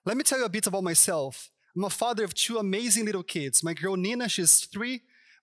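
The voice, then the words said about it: Brazilian Portuguese accent. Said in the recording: “where I'm from because of my accent ... all the way from Brazil”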